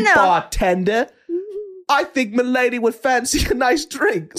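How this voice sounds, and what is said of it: Put-on hard-to-place accent. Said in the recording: “you can't tell from my accent ... What is that accent? ... a little bit from here, a little bit over there”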